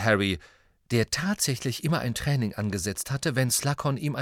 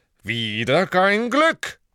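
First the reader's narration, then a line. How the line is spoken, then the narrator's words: Theatrical exclamation. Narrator (German): rief Slughorn theatralisch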